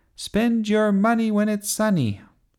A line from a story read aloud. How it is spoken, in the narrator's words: She shouted